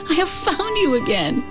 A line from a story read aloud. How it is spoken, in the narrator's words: Chin Yumin cried